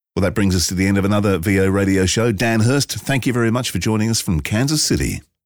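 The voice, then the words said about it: Noticeable non-American accent. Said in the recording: “you guys talk funny ... there's some something about an accent”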